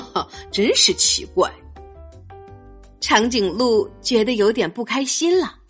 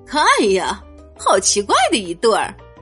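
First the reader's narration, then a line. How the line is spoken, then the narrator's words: Mocking. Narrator (Chinese): 长颈鹿们开始嘲笑起来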